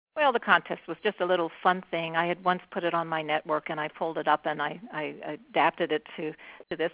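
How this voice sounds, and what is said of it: Slightly hoarse voice. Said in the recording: “you wouldn't have heard anything but a very minor squeak ... I just took my voice away. So I'm still a bit hoarse”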